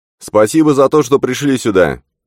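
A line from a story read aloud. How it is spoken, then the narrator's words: Clear, carrying, not shouting. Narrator (Russian): Ее голос отчетливо донесся до принца, хотя она не кричала и не вопила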